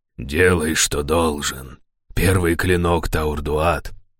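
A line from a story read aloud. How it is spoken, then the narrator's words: Hoarse leader's voice. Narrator (Russian): хрипло проговорил предводитель стражей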